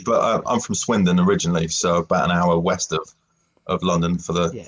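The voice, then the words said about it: English accent, not East London. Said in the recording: “I'm not from East London, as you, you might be able to tell from the ... accent”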